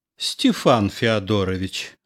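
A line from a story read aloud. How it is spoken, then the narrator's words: Affectionate uncle. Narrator (Russian): ласково сказал дядя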